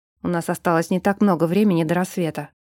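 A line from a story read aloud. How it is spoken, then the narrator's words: Muttered. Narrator (Russian): пробормотал он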